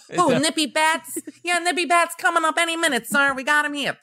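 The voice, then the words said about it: Bronx-style movie character impression. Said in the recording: “That's my Bronx Tale impression.”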